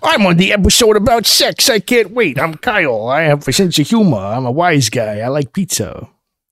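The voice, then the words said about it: Imitates another person's voice. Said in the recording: “That's my impression of you”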